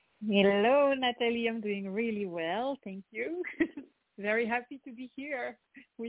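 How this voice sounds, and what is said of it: French accent in English. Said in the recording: “you have this beautiful French accent.”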